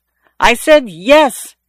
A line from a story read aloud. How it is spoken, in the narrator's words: the other woman yelled